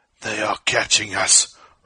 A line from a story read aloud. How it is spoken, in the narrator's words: rasped Ko